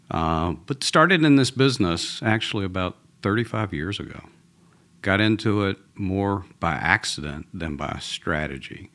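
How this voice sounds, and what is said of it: Southern US Georgia accent. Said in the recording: “I'm originally from Atlanta, from uh, a, Southern boy. So even though I live in Texas now, this is a Georgia accent”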